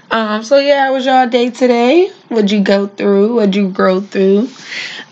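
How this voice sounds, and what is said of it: Stuffy, congested voice. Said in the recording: “My allergies are bad, so I sound a little stuffy”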